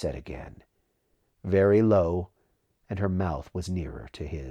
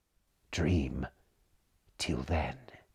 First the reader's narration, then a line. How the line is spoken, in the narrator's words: murmured his breath